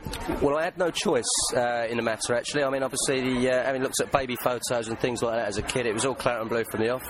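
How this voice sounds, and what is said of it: English accent. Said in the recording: “still got the English accent”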